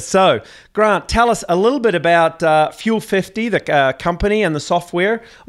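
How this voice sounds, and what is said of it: Strong New Zealand accent. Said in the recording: “two New Zealand accents coming at them pretty strong ... we sometimes get a little excited and speak a little quickly”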